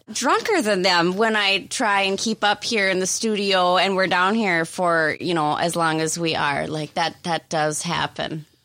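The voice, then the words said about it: Strong Minnesotan accent. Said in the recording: “Quite a Minnesotan a, no. accent, though ... how Minnesotan she sounds ... You're just so Minnesotan”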